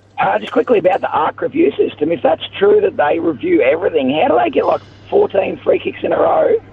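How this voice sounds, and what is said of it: Hoarse, strained voice. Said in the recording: “I've got no voice, sorry. ... You sound a little hoarse ... I'm in the cheer squad, so I've been yelling.”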